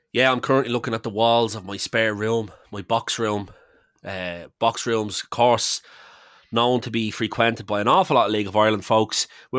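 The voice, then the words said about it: Nasal, raspy voice from illness. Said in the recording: “I'm sick, I'm not well, and you can probably hear it in my voice. So I do apologise for being even more nasally than normal ... that rasp”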